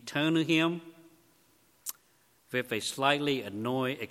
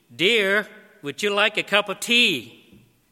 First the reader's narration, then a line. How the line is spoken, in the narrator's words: In an even louder voice, he repeated